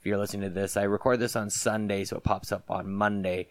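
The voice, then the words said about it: Voice hoarse and congested from cold. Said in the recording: “my voice isn't quite there ... I caught a bit of a cold”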